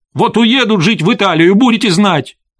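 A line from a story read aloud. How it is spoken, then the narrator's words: Shouted. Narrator (Russian): крикнула она отцу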